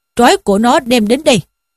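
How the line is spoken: Shouted. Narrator (Vietnamese): Trương Đô Giám quát lên rằng

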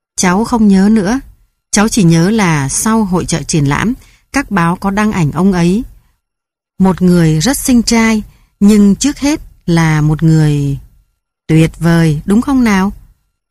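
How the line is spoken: Plain question. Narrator (Vietnamese): ông Rudetsky hỏi

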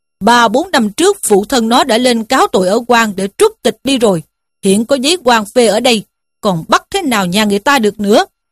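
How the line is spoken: Magistrate's shout. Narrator (Vietnamese): Quan huyện quát lên rằng

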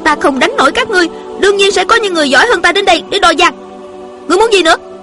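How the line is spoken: Angry young woman. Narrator (Vietnamese): Thiếu nữ giận dữ nói

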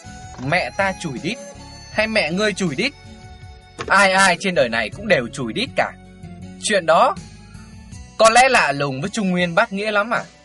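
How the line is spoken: Cold. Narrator (Vietnamese): Tiểu Phi vẫn lạnh lùng

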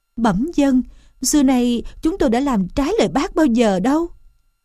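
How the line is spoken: Trembling voice. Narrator (Vietnamese): Châu chấu ma run rẩy

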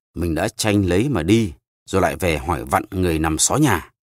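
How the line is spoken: Irritated old man snapping. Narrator (Vietnamese): Cụ ông nhăn mặt lại gắt

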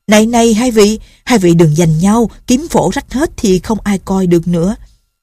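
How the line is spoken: Shouted. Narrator (Vietnamese): Lệnh Hồ Xung la lên

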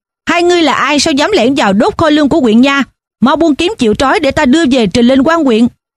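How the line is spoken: Shouted demand. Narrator (Vietnamese): Một tên trong bọn có lẽ là trưởng toán quát hỏi

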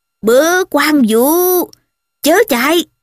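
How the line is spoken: Loud bellow. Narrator (Vietnamese): Hạ Hầu Đôn, lớn tiếng quát nạt

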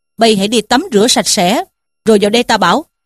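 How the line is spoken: Laughing. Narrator (Vietnamese): Trí Thâm bật cười mà bảo rằng

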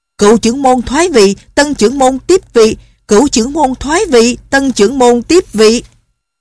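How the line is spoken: Crowd shouting in unison. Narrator (Vietnamese): trong 100 người của phái Thái Sơn có mấy chục người cùng la lên

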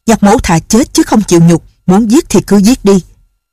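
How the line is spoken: Loud voice. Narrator (Vietnamese): Nhạc Bất Quần lớn tiếng nói

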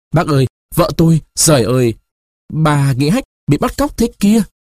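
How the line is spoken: Stammering, choked, resentful. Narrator (Vietnamese): người khách ấp úng, nghẹn ngào, hậm hực, nuốt nước bọt mãi mới nói được

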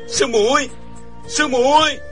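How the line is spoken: Choked, terrified voice. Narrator (Vietnamese): Chàng sợ hãi toàn thân run rẩy, giọng không thốt ra nổi

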